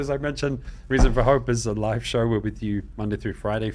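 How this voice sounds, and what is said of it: English accent. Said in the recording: “Don't be fooled by my accent. ... my dear mother in London, England”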